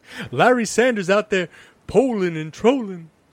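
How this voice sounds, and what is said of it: Clyde Frazier impression. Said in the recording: “I want to do my Clyde Frazier impression.”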